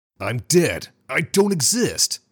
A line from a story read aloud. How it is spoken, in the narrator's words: he shouted loudly